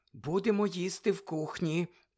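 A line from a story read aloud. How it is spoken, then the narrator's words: Whisper. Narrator (Ukrainian): прошепотіла місіс Уізлі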